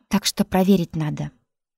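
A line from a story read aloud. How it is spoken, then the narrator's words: Plain. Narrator (Russian): сказал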